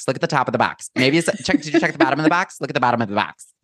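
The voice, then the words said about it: Imitated Michigan accent. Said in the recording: “that for me, like forever lives as like the Michigan accent”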